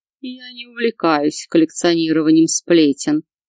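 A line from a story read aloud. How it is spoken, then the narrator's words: Grimacing, through teeth. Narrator (Russian): скривившись, процедил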